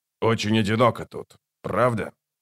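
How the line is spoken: Snort. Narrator (Russian): Скрипач хмыкнул

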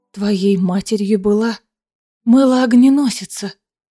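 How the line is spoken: Shocked gasp. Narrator (Russian): выдохнула потрясенная Аэлина

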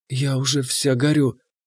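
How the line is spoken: Whisper in ear. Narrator (Russian): она шепнула мне в ухо

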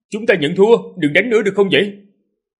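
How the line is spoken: Loud shout. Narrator (Vietnamese): hét lớn

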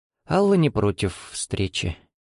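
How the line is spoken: Uncertain speech, mother. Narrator (Russian): неуверенно произнесла мама

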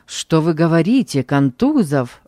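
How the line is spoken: Exclamation. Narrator (Russian): воскликнул я

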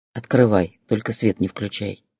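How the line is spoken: Quiet. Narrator (Russian): тихо сказал

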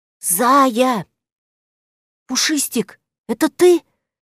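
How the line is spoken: Whispered reply. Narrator (Russian): также шепотом ответила Зойка

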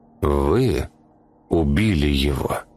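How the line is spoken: Slow question. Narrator (Russian): медленно спросил Лауден

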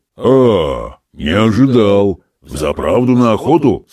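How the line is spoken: Deep bass question. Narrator (Russian): спросил он густым басом

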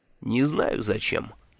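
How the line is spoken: Grumbling mutter. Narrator (Russian): буркнул Мелифару

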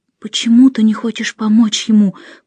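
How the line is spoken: Whispered. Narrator (Russian): прошептала я

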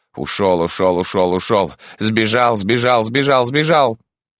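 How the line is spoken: Loud disappointed muttering. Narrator (Russian): Лина уже громко бормоча

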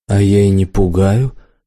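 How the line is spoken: Calm, confident reply. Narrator (Russian): совершенно спокойно и уверенно ответила девица

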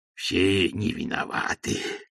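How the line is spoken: Muttered. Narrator (Russian): бормотал Никита Пряхин

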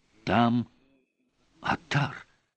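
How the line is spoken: Feverish whisper. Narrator (Russian): горячечно зашептал Олис

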